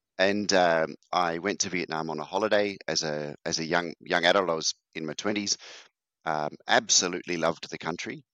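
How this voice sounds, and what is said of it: Australian accent. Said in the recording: “I'm from Australia. You might guess by the accent.”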